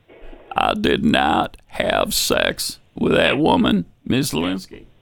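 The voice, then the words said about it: Imitates another person's voice. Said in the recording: “name this celebrity impersonation.”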